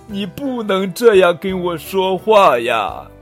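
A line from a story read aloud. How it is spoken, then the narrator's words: Sobbing. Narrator (Chinese): 国王抽泣着说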